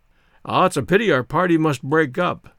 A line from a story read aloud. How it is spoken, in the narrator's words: exclaimed my grandfather